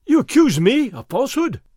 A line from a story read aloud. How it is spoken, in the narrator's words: Fray Felipe cried